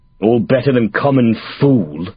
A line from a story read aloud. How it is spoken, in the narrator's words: Oswald spat